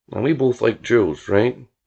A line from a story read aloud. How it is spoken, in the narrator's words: he asked